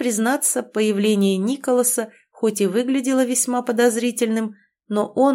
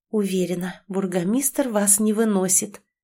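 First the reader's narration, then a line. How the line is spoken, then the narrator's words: Whisper, suppressing smile. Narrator (Russian): прошептала, с трудом сдерживая улыбку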